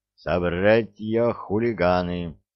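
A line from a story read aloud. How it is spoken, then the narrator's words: Solemn proclamation. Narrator (Russian): торжественно провозгласил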